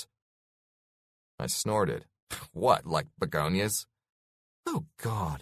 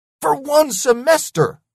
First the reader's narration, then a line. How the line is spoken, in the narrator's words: I yelled